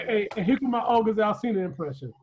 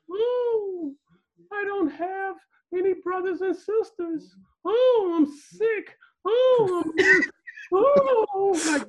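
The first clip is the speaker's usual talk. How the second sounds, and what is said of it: Falsetto imitation of a singer's voice. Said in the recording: “why are you doing it falsetto? ... That's how he sounds to me. That's how he's singing. ... He ain't hit puberty yet.”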